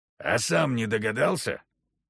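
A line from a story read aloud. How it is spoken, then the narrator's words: Grumbling. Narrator (Russian): проворчал Егор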